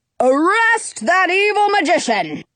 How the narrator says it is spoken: the Sultan yells

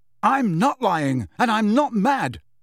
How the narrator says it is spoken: Harry told her, his voice rising to a shout

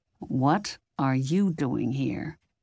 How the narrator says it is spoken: Jack demanded in a low voice

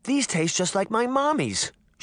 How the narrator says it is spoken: she exclaimed

